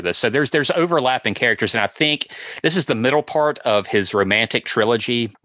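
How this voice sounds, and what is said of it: Mississippi Southern US accent. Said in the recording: “my Mississippi accent”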